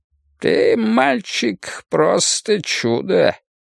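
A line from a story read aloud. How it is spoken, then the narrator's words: High cracked voice. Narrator (Russian): произнес он своим высоким надтреснутым голосом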